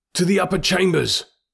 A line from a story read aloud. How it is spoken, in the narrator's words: shouted the red man